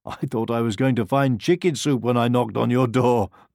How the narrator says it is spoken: laughed the pig

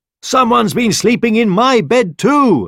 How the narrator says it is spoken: exclaimed the mother bear

